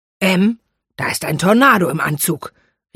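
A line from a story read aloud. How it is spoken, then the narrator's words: Calling out. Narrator (German): rief er seiner Frau zu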